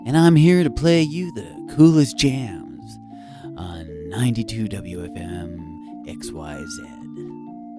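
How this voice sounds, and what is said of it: Lower, cooler radio DJ voice. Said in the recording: “Would it be better if I was a little bit lower and cooler? ... DJ voice”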